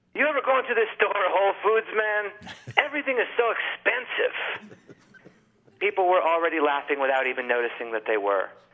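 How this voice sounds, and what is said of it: Put-on accent. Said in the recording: “I have to apologize for this accent I'm about to do.”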